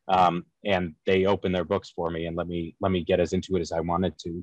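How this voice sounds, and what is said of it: Rhode Island accent. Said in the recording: “I'm a white guy from Rhode Island with a shitty accent”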